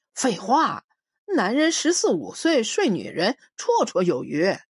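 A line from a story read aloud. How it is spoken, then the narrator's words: Mocking. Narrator (Chinese): 我笑话他说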